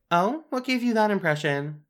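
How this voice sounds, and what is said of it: Sarcastic, passive-aggressive tone. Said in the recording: “You're being very passive-aggressive.”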